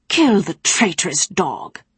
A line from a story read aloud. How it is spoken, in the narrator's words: Bronow snapped